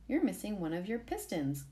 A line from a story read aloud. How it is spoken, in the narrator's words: Gabby said